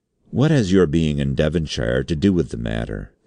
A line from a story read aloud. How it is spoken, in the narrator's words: said the chairman